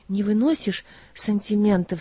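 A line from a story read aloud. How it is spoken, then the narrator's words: Timid speech. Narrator (Russian): сказала робко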